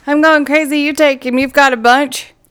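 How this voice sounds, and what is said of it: Put-on Southern American accent. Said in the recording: “There goes that Southern accent again.”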